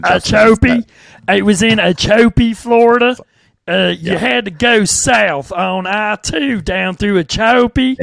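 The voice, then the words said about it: Put-on rural southern Florida accent. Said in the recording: “That's how everybody talks down there. Some people like to turn that into a New Orleans thing. It's not. ... exactly how I just presented that accent to you. That's exactly how everyone talks in Okeechobee, Florida.”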